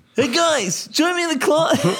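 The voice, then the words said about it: Exaggerated imitation of another person's voice. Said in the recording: “do my voice ... I don't sound anything like that. Bro, it's like you exaggerate so bad.”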